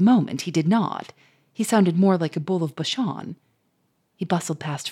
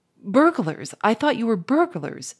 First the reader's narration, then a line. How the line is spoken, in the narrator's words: stammered Firmin